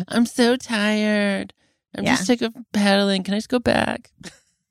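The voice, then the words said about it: Imitates another person's voice. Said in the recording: “that Penny impression... good impression... Good voice”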